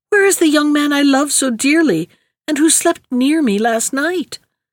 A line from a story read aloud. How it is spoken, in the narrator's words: she cried